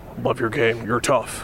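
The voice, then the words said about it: Imitates another person's voice. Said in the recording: “that was my impersonation of Josh Okogie's impersonation of Frank Vogel”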